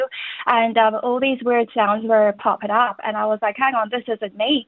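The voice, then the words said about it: Foreign, Irish-sounding accent. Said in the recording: “this foreign accent ... I sound like Irish”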